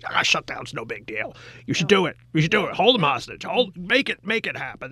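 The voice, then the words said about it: Impression of right-wing radio host. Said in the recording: “I like your radio voice. ... What a great impression.”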